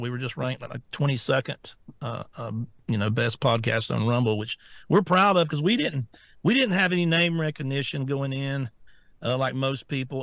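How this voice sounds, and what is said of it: Southern US drawl. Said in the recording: “listen to my voice. I'm not a natural podcast person. You know, I'm an old country boy with a southern drawl.”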